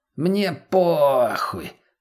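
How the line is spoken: Drawling. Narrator (Russian): протянула сугроба мутной

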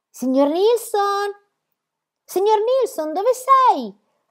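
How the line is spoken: High-pitched shriek. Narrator (Italian): strillò con voce acuta

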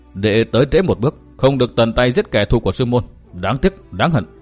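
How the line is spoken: Angry, resentful. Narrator (Vietnamese): Từ Mã Minh tức giận hậm hực nói

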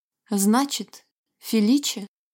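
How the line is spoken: Forced calm speech. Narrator (Russian): произнесла Алича, стараясь говорить спокойно

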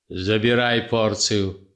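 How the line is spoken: Sleepy grumble. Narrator (Russian): буркнул он сонным голосом

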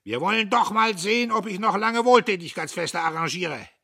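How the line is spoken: Bellowing. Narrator (German): Der Major brüllte

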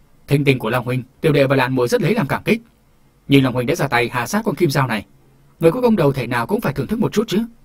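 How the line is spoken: Loud joyful reply. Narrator (Vietnamese): Hồ Hùng cả mừng, lớn tiếng đáp

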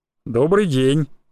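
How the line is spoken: Surprisingly cheerful. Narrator (Russian): удивительно бодрым голосом произнес он

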